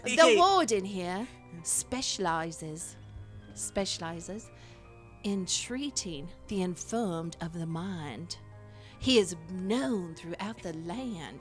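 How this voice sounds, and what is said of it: Fake British accent. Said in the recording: “What the heck happened to my accent? ... I knew it was fake! ... It's fake! ... Trying to be all British?”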